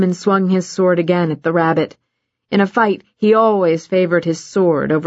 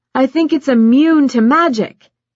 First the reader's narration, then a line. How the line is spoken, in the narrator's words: Baz yelled